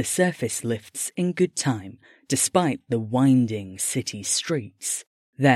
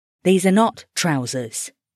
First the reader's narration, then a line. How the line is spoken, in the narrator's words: Early snapped